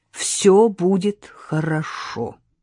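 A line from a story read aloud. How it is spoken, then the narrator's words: Fully convinced voice. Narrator (Russian): сказала она абсолютно убежденным голосом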